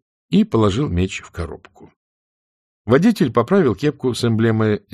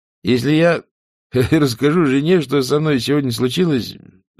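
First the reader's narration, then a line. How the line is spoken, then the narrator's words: Sad. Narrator (Russian): сказал он печально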